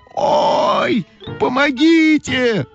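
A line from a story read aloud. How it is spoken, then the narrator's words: Screaming. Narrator (Russian): закричала Ойка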